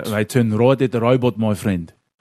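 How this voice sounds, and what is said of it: Put-on South African accent. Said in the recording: “Give me your best South African accent right now. ... That's not bad, eh?”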